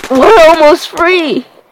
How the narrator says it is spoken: I shout and cry

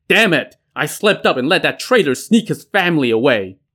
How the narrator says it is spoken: shouting

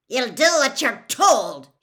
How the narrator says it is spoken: he growled

